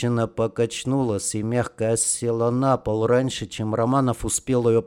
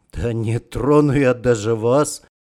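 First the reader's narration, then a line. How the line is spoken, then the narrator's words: Snorting grunt. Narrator (Russian): хмыкнул Романов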